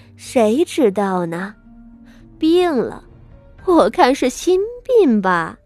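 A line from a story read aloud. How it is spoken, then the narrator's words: Scoffing. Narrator (Chinese): 三太太嗤笑道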